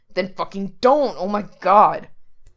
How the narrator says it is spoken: Frank growls

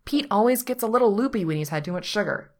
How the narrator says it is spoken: Patrick explains

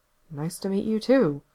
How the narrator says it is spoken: Gerard mumbled under his breath

